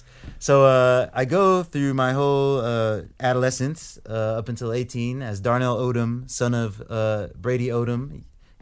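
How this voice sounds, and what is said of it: Thick American accent. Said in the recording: “my accent, super thick American dude man accent. It is very American pie”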